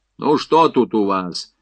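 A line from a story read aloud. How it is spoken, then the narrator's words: Angry address. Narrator (Russian): сердито обратился корпусной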